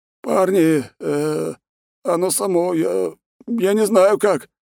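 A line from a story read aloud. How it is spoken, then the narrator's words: Mumbling. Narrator (Russian): начал мямлить он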